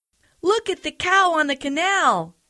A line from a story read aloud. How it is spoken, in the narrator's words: they cried